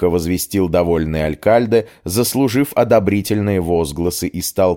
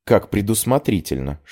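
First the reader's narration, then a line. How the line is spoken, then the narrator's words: Whispered. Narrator (Russian): шепнула я Мелинде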